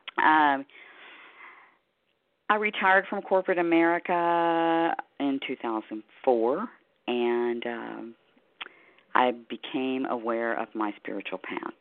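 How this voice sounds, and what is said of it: Slightly hoarse voice. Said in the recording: “I'm a little hoarse this evening.”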